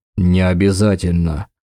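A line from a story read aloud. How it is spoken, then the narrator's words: Snorting. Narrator (Russian): хмыкнул Дакар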